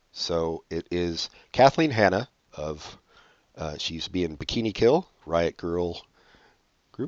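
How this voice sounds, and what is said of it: Slightly congested, stuffy voice. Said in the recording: “I have a bit of a cold, so I'm going to be like horking up stuff probably.”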